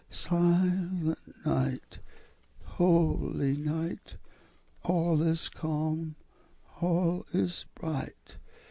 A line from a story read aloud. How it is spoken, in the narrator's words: She began to cry, and then she softly said